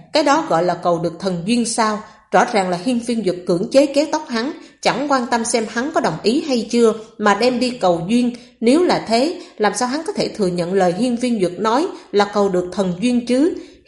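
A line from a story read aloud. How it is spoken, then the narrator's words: Mocking soft laugh. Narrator (Vietnamese): Âm Tế Thiên châm chọc cười khẽ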